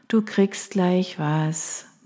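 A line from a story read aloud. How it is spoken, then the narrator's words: Tired, smiling murmur. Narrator (German): murmelte ich müde lächelnd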